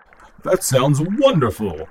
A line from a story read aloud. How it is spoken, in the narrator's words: it exclaimed